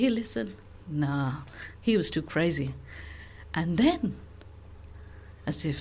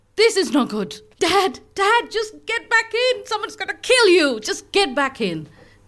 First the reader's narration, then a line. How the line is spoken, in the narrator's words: He started shouting, gesticulating wildly, saying